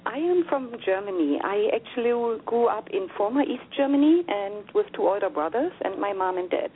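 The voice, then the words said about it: Slight German accent. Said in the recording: “I can't help but detect a little accent.”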